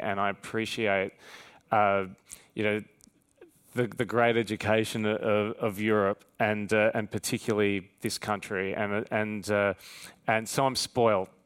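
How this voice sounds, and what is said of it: Australian accent. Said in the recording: “especially in my Australian accent”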